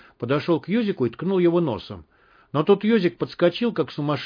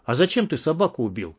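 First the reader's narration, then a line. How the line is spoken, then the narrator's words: Very quiet question. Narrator (Russian): совсем тихо спросил Юрка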